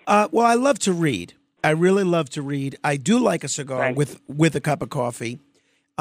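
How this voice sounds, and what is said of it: Hoarse, strained voice. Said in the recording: “your unfortunate laryngitis right now”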